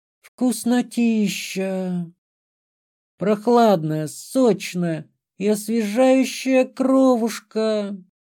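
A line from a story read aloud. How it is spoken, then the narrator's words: Moaning with pleasure. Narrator (Russian): простонала она с наслаждением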